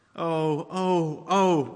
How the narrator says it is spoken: cried the two girls

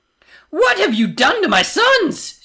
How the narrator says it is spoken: She screeches

